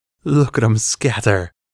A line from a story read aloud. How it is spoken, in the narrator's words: came Dapala's voice through her manic laughter